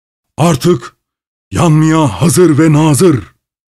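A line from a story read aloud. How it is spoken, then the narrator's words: Man's triumphant roar. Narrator (Turkish): diye bağırdı zafer dolu bir gürlemeyle kapkara adam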